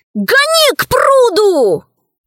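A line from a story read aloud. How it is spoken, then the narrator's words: Shout. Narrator (Russian): крикнул Пашка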